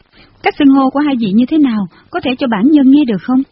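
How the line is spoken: Smiling question. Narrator (Vietnamese): Tần Nhi liền mỉm cười hỏi

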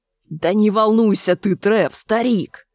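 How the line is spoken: Hissed. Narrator (Russian): прошипел Энди

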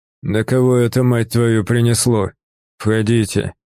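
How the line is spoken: Hoarse, smoky, distant. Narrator (Russian): Донесся оттуда знакомый, хриплый, пропитанный дымом голос Севера

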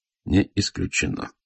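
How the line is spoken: Gloomy reply. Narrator (Russian): отвечал я мрачно

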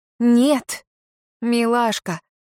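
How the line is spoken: Man drawling. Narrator (Russian): протянул мужчина

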